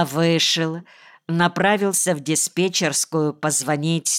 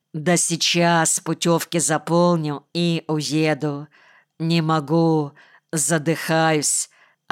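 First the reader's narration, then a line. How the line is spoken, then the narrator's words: Plain. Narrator (Russian): ответил Иван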